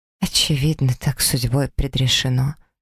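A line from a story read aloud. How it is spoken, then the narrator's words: Quiet. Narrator (Russian): произношу тихо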